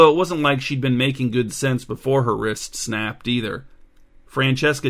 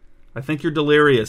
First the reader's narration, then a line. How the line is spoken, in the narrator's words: said Bernadette